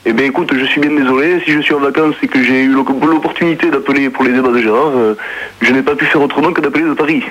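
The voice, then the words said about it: Southern French accent, Marseille or Toulouse. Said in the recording (French): “tu prends pas ton accent marseillais ... tu as l'accent marseillais ... j'ai l'accent toulousain”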